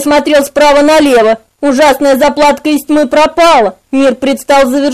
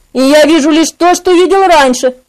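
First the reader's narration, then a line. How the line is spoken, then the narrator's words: Shouting. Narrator (Russian): кричал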